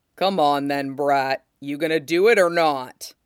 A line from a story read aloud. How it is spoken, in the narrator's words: Whitebeard rumbles